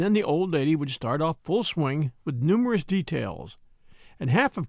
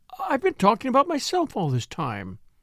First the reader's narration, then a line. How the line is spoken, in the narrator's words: she exclaimed